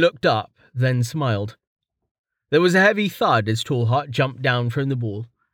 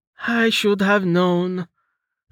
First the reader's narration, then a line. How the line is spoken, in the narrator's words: Amelia said with a long, suffering sigh